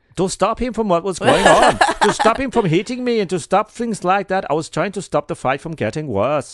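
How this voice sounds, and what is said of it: Put-on Dutch accent. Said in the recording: “That wasn't bad, but ... That was my Dutch accent. ... That was shit, wasn't it?”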